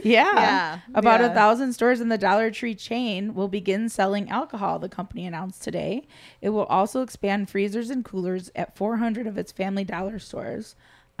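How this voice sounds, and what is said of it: Hoarse, tired voice. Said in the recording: “I'm saying that with a hoarse voice and still exhausted”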